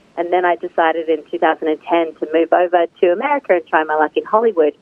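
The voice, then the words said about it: Australian English accent. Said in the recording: “as you can tell from my accent, I am from Australia”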